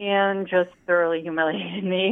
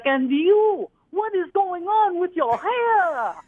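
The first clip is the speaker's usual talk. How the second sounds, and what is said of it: Thick Greek accent. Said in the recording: “big, tall Greek lady with the thick accent”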